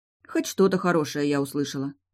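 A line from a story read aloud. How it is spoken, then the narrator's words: Grumbling. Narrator (Russian): проворчала я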